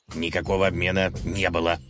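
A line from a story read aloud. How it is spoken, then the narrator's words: Growling. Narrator (Russian): прорычал он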